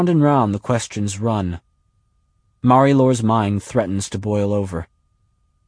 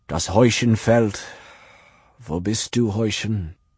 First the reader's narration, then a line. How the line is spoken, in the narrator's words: Between groans he calls